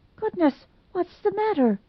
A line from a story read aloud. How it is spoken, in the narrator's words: gasped Dot Fraser